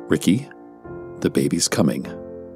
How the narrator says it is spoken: calmly stated

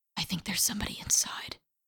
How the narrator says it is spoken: whispered

